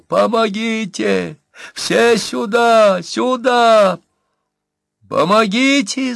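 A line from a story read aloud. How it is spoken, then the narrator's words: Shrieking. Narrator (Russian): завизжала Марфа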